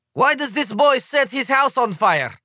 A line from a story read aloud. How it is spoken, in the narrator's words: demands one delegate in a thick Slovenian accent